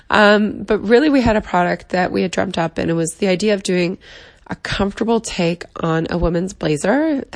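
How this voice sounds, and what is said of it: Sick-sounding voice. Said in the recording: “apologize for my voice. I'm still sick when I'm recording this”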